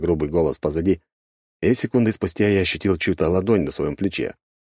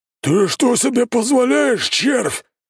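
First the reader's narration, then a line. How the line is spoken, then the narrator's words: Roaring bearded man. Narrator (Russian): взревел еще один бородатый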